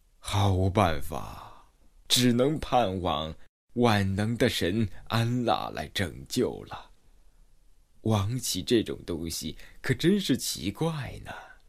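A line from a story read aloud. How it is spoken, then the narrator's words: Dejected sigh. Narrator (Chinese): 他感到十分的沮丧，感叹道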